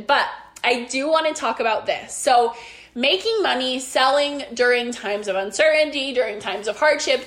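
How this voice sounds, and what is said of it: Strained, fading voice. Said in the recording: “I feel like I'm like losing my voice ... I feel like I'm losing my voice. ... since I've like been sick”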